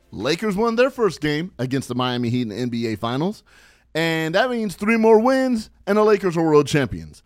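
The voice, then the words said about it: Excited, hyped-up voice. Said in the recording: “I know you hear it in my voice. I'm hype. I'm hype as hell.”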